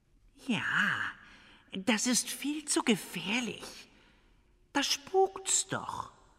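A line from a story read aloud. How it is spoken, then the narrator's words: Cat purring. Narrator (German): schnurrte die Katze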